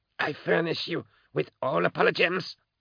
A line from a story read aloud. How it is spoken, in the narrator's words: he hissed through his split mouth